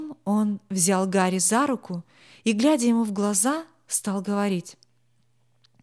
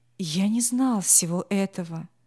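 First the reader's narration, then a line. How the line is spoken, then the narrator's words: Gentle, wistful, sad. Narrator (Russian): Учитель с тоской в голосе сказал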